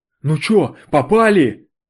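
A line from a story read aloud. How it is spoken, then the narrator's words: Hoarse breathless question. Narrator (Russian): Выдыхая хрипло, спросил меня он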